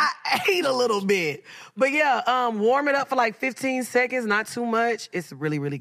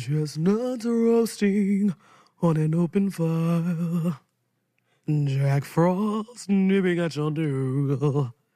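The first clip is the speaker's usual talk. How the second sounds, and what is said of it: Singing in a deep voice. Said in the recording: “That sounded kind of good with my deep voice.”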